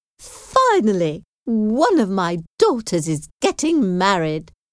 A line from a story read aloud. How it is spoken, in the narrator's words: she exclaimed happily